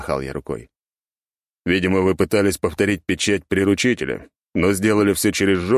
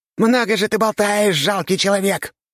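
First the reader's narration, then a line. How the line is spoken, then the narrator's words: Menacing monster squeak. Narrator (Russian): грозно пропищал монстр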